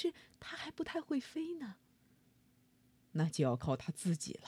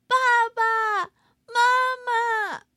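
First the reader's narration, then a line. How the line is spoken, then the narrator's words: Crying while shouting. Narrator (Chinese): 小翼龙边喊边哭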